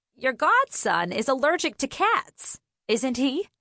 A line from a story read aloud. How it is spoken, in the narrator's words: Marie called to Helen, her voice infused with triumph